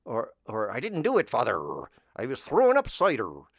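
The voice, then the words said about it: Put-on West Country pirate accent. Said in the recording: “isn't that a fun accent? So that sounds like a pirate. ... That's the pirate voice ... that kind of West Country accent”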